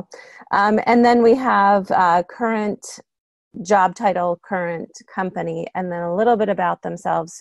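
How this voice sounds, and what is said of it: Strained, fading voice. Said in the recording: “I'm gonna clear my throat. ... I think I'm losing my voice,”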